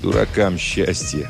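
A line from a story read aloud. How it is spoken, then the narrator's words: Smirking mutter. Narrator (Russian): он, усмехнувшись, пробормотал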